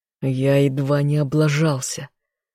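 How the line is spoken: Growl. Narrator (Russian): рыкнул в ответ

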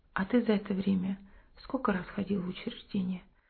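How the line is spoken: Calm question. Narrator (Russian): Семен спокойно спросил

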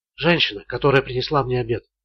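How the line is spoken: Whispered explanation. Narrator (Russian): шепотом объяснила Холли

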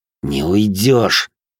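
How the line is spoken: Hissed through clenched teeth. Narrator (Russian): процедил сквозь зубы

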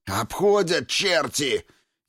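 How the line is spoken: Furious hoarse rasp. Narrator (Russian): яростно захрипел Нифонтов

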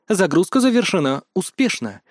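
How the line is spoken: Calm. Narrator (Russian): спокойно отозвалась подруга

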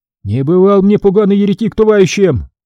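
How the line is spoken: Priest yelling again. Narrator (Russian): снова завопил поп

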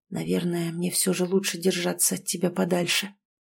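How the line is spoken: Whisper. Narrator (Russian): прошептал он

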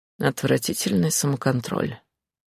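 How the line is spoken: Through gritted teeth. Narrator (Russian): процедил Джун

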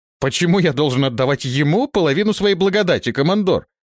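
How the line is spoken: Indignant exclamation. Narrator (Russian): возмущенно воскликнул покровитель пророков

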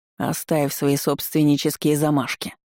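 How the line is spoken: Growl. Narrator (Russian): рыкнул рыжий Илфикиир

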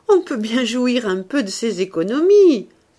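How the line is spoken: Cheerful. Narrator (French): continua-t-il gaiement

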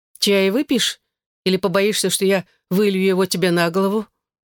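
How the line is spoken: Relieved laughter. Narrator (Russian): Морин с облегчением засмеялась

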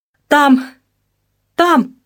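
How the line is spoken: Wheezing, gasping for air. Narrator (Russian): хрипела она, хватая воздух ртом

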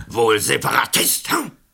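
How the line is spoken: Agitated thundering voice. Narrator (German): Der Nationalrat war aber nicht zu beruhigen, er donnerte

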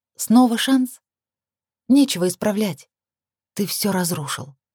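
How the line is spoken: Numb-lipped whisper. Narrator (Russian): помертвевшими губами прошептала я

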